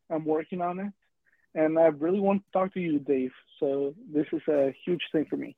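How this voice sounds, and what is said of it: Non-native English accent. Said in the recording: “I'm sorry about the accent. ... Your accent's great.”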